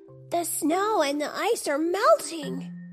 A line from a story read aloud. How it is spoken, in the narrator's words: exclaimed